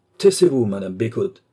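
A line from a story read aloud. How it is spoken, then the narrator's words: Cold husband. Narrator (French): lui dit froidement son mari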